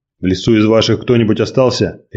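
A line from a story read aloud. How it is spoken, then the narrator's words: Sharp question. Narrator (Russian): резко спросил Николай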